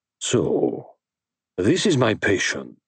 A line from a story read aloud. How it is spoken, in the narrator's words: he said in a low, vibrant voice